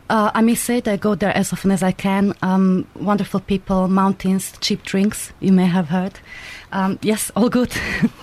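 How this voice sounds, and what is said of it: Slovak accent in English. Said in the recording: “I tried to learn British accent and lose my Slovak accent. You know, never succeeded.”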